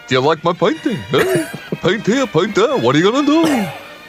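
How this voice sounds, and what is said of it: Put-on New York accent. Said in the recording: “the New York accent is in fact how the Dutch used to speak ... he would have spoken like a New York Jew”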